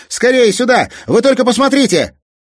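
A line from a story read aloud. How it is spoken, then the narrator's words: Excited shout. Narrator (Russian): Казик не выдержал и закричал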